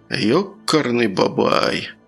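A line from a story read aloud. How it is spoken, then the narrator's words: Babbled. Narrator (Russian): пролепетал Круглов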